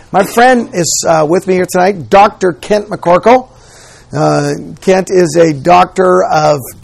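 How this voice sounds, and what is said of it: Strained, worn-out voice. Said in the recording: “Please forgive my voice... I've been speaking a lot... allergies, and that combination has really made this challenging for me”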